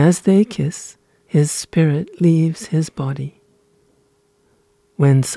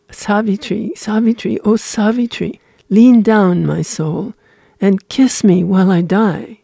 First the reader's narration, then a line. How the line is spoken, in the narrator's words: he cries to her